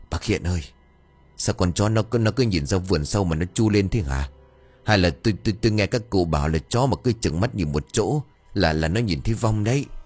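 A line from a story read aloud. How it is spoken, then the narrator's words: Trembling man. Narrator (Vietnamese): Một trong hai gã bắt đầu run rẩy, bảo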